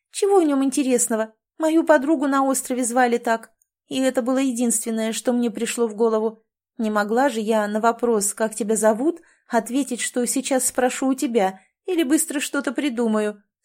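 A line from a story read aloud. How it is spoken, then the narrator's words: Laughing reply. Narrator (Russian): смеясь ответила Тамрета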